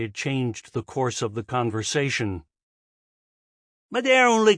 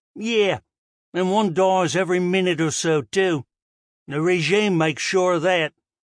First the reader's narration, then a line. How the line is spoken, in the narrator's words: One of the others had snorted